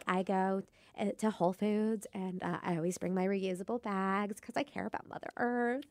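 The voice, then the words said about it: Hippie character voice. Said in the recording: “do my hippie voice”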